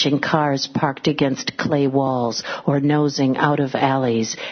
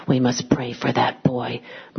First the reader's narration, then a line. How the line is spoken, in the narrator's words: Monsignor Uriastre whispered